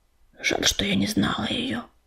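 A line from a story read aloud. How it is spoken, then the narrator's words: Whisper. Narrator (Russian): прошептала Листвичка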